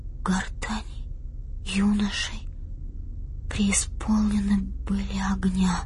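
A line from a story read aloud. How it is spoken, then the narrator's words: Absent-minded whisper. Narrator (Russian): сказала она шепотом, сама не осознавая, что говорит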